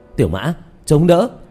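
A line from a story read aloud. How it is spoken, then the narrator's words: Loud shout. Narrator (Vietnamese): Diệp Thiếu Dương hét lớn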